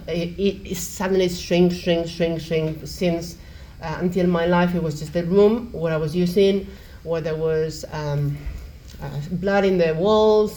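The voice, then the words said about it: Non-native English accent. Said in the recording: “as you probably have gathered from my accent, I'm not a native.”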